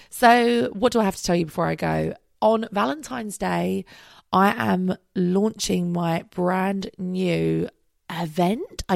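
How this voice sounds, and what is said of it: Weird, strained voice from illness. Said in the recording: “every 10 seconds I start coughing ... if my voice sounds a little bit weird ... I'm going to have a chest infection ... I'm really struggling to talk without coughing”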